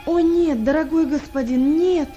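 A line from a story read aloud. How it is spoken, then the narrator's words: Desperate exclamation. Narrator (Russian): воскликнул он в отчаянии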